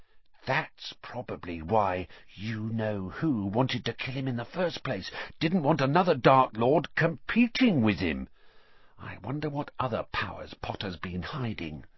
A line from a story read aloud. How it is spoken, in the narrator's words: He dropped his voice until it was barely more than a whisper, and said